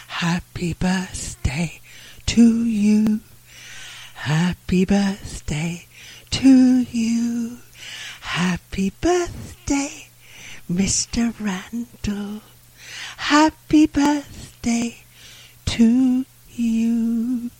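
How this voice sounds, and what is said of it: Sung imitation of another person's voice. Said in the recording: “a great impression of Tiny Tim, darling ... It's my Marilyn Monroe bit”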